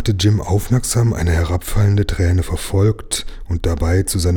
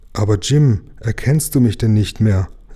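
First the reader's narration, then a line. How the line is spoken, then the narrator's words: Deeply sad bird. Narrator (German): erwiderte der Vogel mit unendlich trauriger Stimme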